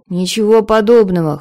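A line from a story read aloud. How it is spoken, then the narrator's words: Scoffing. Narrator (Russian): хмыкнул Эйнер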